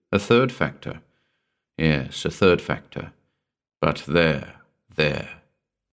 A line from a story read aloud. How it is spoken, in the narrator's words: he added slowly